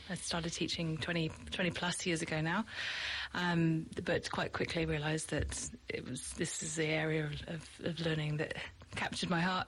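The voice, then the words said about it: British accent. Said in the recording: “clearly my accent is not a Kiwi accent, so I'm from the UK”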